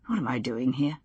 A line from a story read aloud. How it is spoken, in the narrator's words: He muttered to himself